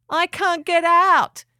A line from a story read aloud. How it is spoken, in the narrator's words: Hound cried up to Finn